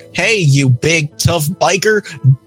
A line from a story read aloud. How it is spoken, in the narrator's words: Dot said it in a cloying little girl voice